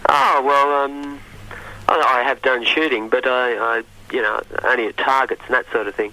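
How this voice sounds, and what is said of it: Australian accent. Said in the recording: “Do I detect from your accent that you're not from these shores? ... I'm Australian.”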